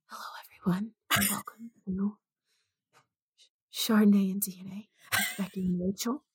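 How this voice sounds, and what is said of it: Soft ASMR-style whisper. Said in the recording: “ASMR voice ... I am whispering into the mic”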